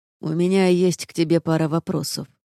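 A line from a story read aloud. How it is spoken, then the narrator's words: Low, charmingly husky voice. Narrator (Russian): раздался низкий голос с чарующей хрипотцой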